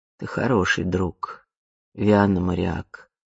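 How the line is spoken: Quiet. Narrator (Russian): тихо произнесла она

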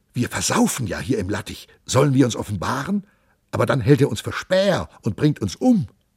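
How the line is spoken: Pilgrims whispering together. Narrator (German): wisperten die Wallfahrer untereinander

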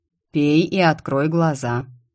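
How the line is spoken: Melodic male voice, growling notes. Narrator (Russian): певучий мужской голос со знакомыми рычащими нотками произнес

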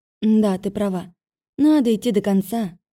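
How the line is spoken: Sighing. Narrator (Russian): вздохнула

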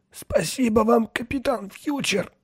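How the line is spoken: Hoarse. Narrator (Russian): хрипло сказал Вислер

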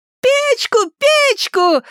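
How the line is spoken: Screaming right in ear. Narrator (Russian): завопила Элли прямо в ухо отцу

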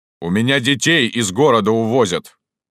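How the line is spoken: Deep authoritative bass. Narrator (Russian): басил начальственный голос

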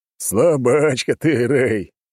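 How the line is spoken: Roaring laughter, big man. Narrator (Russian): расхохотался здоровяк

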